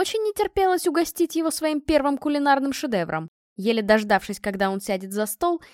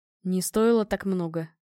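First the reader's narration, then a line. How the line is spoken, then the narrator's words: Mumbling. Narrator (Russian): промямлил муж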